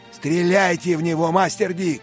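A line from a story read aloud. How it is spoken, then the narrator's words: Shouting. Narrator (Russian): прокричал Беннет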